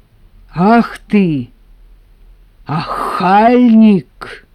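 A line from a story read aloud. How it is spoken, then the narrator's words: Loud. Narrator (Russian): громко повторила Аграфена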